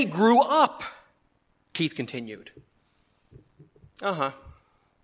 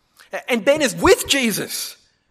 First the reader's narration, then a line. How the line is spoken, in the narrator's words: Keith exclaimed